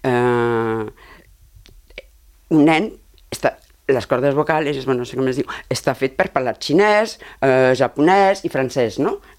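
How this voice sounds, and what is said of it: Non-native foreign accent in Catalan. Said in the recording (Catalan): “per això parlo amb aquest accent. Perquè ja era massa tard.”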